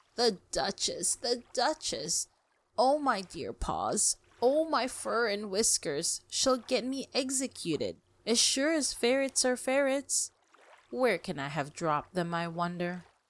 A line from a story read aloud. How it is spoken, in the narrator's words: muttering to itself